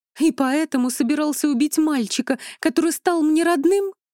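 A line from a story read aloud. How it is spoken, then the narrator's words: Exclamation. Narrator (Russian): воскликнула Хильда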